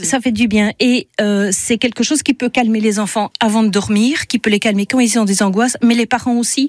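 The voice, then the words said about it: Belgian French accent. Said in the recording (French): “ce petit accent belge ravissant”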